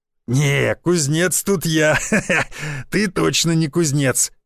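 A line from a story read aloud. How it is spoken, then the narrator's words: Man burst out laughing. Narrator (Russian): расхохотался мужик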